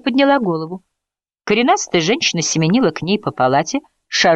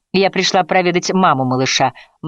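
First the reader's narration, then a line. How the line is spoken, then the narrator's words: Awkward chuckle. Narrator (Russian): Мэри неловко хохотнула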